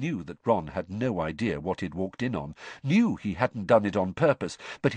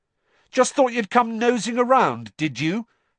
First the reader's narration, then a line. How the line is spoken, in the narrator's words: Harry shouted